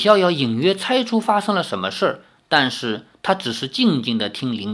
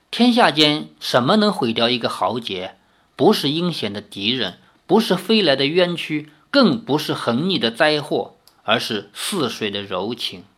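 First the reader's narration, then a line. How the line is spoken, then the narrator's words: Long sigh. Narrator (Chinese): 林天南长叹一声，说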